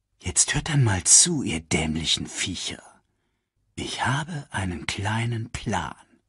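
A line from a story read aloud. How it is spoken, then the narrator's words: Whispered. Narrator (German): flüsterte Scar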